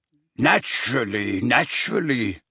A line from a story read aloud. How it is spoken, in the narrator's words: murmured Borgin